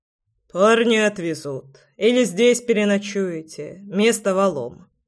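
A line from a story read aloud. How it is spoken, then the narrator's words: Calm. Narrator (Russian): спокойно произнес Громов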